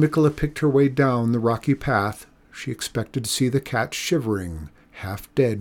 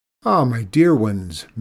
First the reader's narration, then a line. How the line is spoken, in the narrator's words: Mikola exclaimed